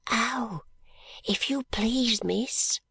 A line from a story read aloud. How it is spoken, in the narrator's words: said Charlie in a whisper